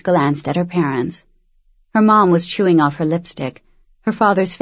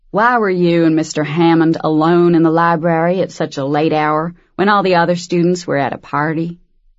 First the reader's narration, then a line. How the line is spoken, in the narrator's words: he said with a slow southern drawl